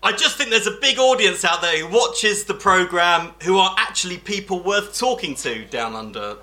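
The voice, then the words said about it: Nigel Farage impression. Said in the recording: “Nigel Farage!”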